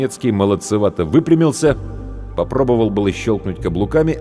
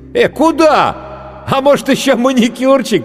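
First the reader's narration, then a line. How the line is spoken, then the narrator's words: Shout then laughter. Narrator (Russian): крикнул гример и расхохотался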